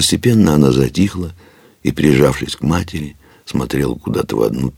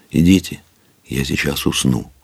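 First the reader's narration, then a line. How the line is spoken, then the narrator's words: Girl, nearly calm. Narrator (Russian): девочка сказала уже почти спокойно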